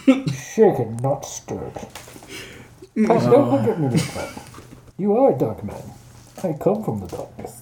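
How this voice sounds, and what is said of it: Sean Connery impression. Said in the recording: “He sounded like what's his name? Sean Connery.”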